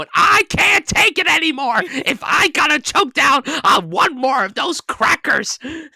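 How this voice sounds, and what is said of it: Gilbert Gottfried impression. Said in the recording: “You do a very good Gilbert Gottfried impression.”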